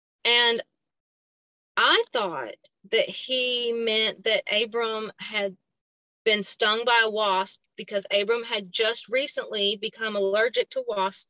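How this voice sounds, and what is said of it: Southern American accent. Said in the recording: “I have a Southern accent, but I don't speak country.”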